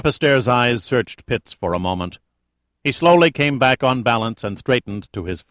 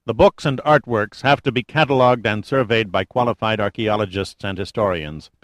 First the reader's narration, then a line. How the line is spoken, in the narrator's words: Pitt said